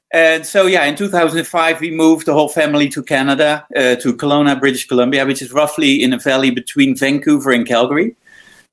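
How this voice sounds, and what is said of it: Dutch accent. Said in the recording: “originally I'm from the Netherlands, as you can hear in my accent”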